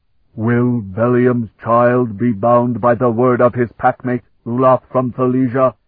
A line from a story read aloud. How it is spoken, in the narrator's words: he demanded in a voice that roared like a furnace